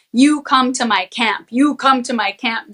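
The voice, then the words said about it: Authoritarian commanding voice. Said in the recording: “Very authoritarian ... in a very authoritarian voice.”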